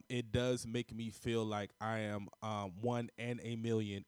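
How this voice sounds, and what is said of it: Imitates another person's voice. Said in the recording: “in my Aaliyah voice.”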